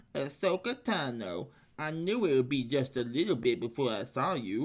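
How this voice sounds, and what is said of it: Hutt creature character voice. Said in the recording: “Yeah, that's him. A good impression”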